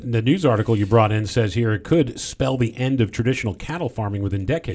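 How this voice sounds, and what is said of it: Newscaster-style reading voice. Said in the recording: “when you put that voice on there... that's my news voice... That's the news voice.”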